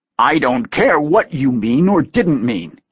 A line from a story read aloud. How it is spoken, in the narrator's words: snarled out